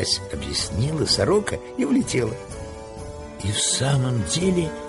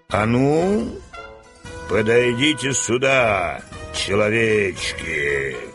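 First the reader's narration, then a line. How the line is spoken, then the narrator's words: Thunderous menacing command. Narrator (Russian): грозно приказал волшебник, и его голос прозвучал, как раскат грома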